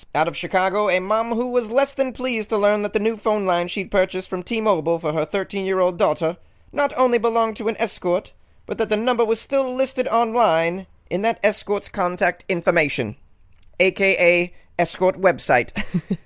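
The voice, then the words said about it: Put-on accent. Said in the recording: “I don't know if I can keep this accent going, guys, but I'm trying here.”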